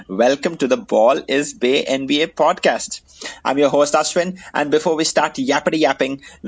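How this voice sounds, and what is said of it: Indian English accent. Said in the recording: “in an Indian accent.”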